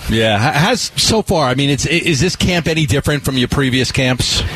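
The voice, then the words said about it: Regional accent, adds and drops R sounds. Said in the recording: “my accent ... You add an R where there is none, and then you take an R away when there should be one.”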